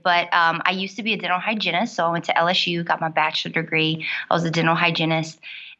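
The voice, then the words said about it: South Louisiana Cajun accent. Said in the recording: “I'm from South Louisiana. You might hear my accent when I get a little bit excited. I'm a Cajun woman”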